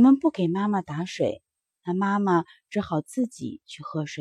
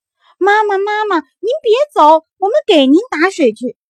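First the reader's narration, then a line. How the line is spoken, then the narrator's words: Children shouting while running. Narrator (Chinese): 孩子们一边追一边喊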